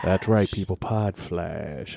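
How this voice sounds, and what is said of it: Put-on radio DJ announcer voice. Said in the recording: “my DJ voice?... That's not a DJ voice, honey... that's not your DJ voice.”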